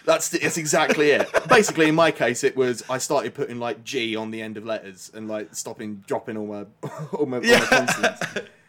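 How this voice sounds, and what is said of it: British received pronunciation accent. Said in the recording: “I clipped my accent, so you get what's called received pronunciation, or RP ... Or the Queen's English.”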